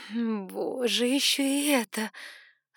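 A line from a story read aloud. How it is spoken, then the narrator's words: Groaning aloud. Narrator (Russian): застонала я вслух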